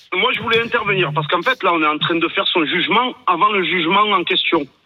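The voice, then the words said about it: Slight regional accent. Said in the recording (French): “avec ce petit accent”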